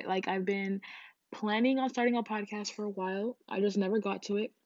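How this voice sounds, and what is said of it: Crusty, just-woke-up voice. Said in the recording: “my voice sounds kind of crusty, it's because I literally just woke up”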